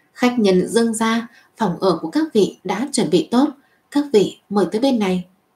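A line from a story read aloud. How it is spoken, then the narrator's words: Slight smile. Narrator (Vietnamese): Mạc quản gia hơi mỉm cười nói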